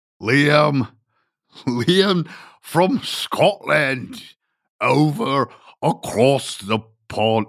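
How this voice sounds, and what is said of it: Bad put-on Scottish accent. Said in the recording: “That is the worst Scottish accent in the world.”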